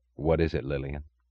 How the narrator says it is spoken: he asked quietly

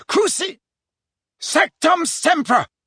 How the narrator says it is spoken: bellowed Harry from the floor

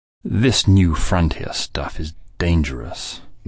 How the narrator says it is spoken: Winifred would say testily

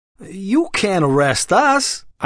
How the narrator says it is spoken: Eichmann whined

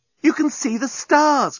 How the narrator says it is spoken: cried Nettie

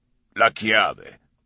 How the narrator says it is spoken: the raspy voice replied

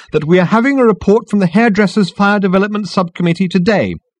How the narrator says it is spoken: continued the girl firmly

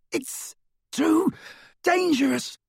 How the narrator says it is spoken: Ron yelled

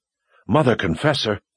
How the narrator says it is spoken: It was Kara's whisper

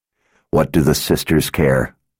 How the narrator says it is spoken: Richard asked in a bitter voice

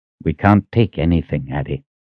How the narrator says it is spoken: he said quietly

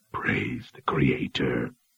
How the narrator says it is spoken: whispered

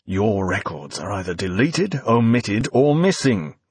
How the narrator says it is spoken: growled Finch, voice rising, patience finally exhausted

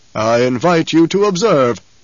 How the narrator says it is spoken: the basso voice rumbled

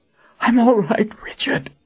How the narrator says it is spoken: Colin panted

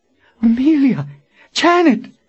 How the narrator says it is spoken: Verna cried out

